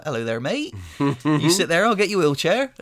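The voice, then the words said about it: Imitated Bristol English accent. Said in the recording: “lovely accent they have in Bristol”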